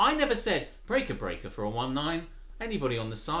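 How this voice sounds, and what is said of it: Usual voice. Nothing is said of it.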